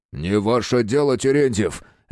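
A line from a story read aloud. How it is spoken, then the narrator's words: Sudden bark after silence. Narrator (Russian): рявкнул молчавший до этого момента Трепов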